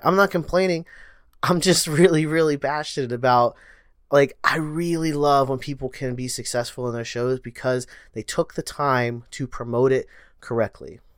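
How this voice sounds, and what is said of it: Fast speech, strained drying voice. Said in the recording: “I'm talking faster. I'm losing my voice. My throat's going dry.”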